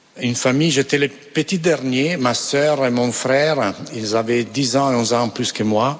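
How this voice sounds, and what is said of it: Non-native accent in French. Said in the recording (French): “Excusez-moi pour mon français, mais j'arrive pas à évoluer. ... Mais je garde l'accent.”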